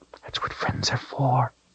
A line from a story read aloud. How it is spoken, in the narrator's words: he whispered in her ear